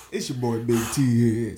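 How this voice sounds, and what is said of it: DJ announcer voice. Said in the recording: “That's my DJ voice.”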